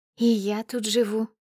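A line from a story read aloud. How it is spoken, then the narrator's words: Sweet little voice. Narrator (Russian): отвечает милым голоском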